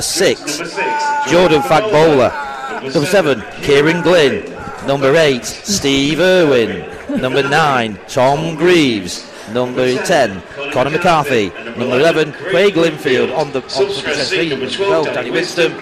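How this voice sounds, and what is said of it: Impression of stadium announcer. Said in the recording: “I do a very good impression of our announcer, don't I?”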